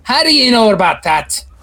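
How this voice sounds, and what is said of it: Attempted Irish accent, sounding Scottish. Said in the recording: “I know it's kind of come into a Scottish accent ... I apparently can't do an Irish accent. I tried.”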